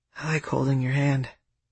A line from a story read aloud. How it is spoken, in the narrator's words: I whispered back